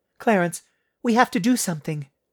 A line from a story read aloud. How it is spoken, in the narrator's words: Denise pleaded with him